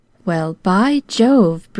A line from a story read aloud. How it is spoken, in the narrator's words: breathed Jimmy, then in a voice that shook a little